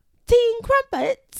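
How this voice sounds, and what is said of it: Weak attempt at British accent. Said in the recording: “Do your British accent for real. ... I can't do it. You know I can't do it.”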